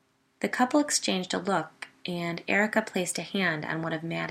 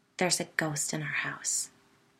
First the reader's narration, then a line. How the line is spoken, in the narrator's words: whispered dramatically